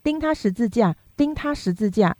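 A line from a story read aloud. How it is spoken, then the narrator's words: Crowd shouting. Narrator (Chinese): 他们喊着说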